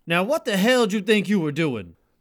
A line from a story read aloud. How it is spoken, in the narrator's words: he yelled